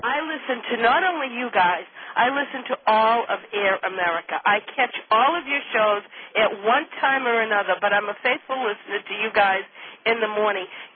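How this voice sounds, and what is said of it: Caller with a regional accent. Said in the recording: “I love hearing that accent. ... this is incredible, this accent.”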